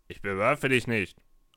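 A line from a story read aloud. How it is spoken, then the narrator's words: Grumbling answer. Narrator (German): antwortete der erste und brummte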